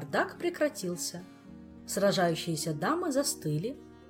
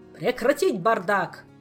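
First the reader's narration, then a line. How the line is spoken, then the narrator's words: King's thunderous bark. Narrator (Russian): Король громогласно рявкнул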